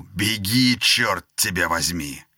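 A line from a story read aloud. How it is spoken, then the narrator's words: Rough barked order. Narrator (Russian): Помощник маршала рявкнул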